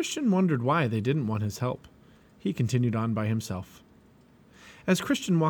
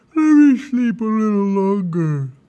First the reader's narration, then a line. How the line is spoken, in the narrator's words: Slothful yawned and said